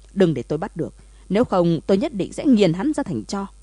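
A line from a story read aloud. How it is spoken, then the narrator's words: Furious, seething. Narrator (Vietnamese): Thẩm Ngũ vì tức giận mà xanh mét lại, căm giận nói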